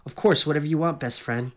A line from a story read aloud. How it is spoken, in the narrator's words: Fiona said